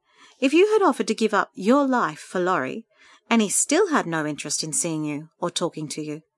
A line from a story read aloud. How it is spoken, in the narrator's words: she said kindly